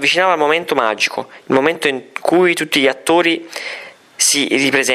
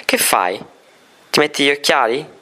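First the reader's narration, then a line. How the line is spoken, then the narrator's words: Plain. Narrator (Italian): chiese Riccardo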